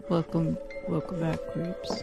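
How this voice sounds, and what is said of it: Attempted deep voice. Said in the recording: “that's the best I can do when it comes to a deep voice.”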